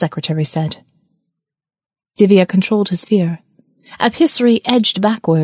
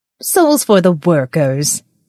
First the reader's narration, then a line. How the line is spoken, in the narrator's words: the secretary scoffed